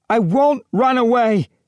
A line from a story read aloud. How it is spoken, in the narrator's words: she shouted through the howling